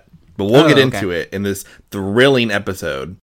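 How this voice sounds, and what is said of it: Sarcastic tone. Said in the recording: “you say that sarcastically”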